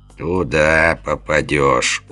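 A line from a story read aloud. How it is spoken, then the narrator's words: Confident scoff. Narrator (Russian): уверенно хмыкнул хозяин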